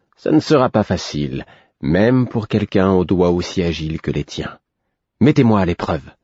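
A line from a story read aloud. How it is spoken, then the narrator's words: Provocative retort. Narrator (French): rétorquai-je d'un ton provoquant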